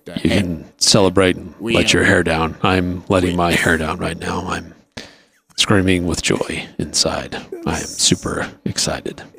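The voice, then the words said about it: Seductive-voiced Bill Belichick impression. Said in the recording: “Is that your seductive voice? ... That's just Bill Belichick.”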